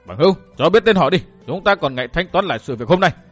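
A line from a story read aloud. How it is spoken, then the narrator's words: Loud shout. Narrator (Vietnamese): Hắn cao giọng thét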